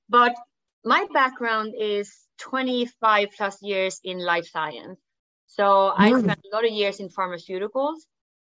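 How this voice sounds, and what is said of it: Swedish-accented English. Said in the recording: “I'm from Sweden. So the funny accent is Swenglish. So I'm combining Swedish and English ... despite the accent”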